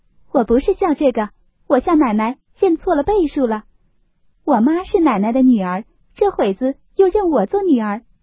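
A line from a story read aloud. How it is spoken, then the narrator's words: Laughing. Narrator (Chinese): 红玉笑道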